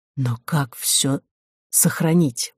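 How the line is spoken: Whispered. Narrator (Russian): прошептал Роман

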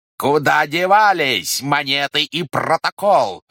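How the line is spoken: Roared. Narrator (Russian): взревел следователь

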